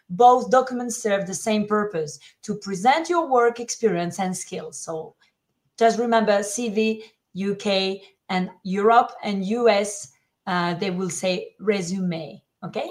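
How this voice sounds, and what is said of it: French accent. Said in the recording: “that sounds so good in your French accent”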